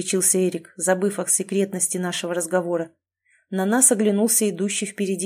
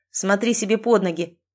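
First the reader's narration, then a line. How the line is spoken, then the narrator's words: Rude. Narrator (Russian): грубо ответил Эрик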